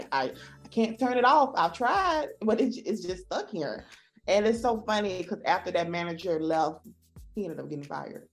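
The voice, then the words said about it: Southern US accent. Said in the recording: “it's your accent, because I'm from the South. I do have an accent.”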